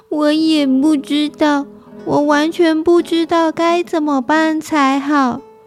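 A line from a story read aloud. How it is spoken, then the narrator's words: Tearful, despairing. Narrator (Chinese): 这团黑影哭丧着脸说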